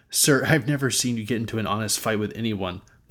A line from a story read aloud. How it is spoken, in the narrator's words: Lavu said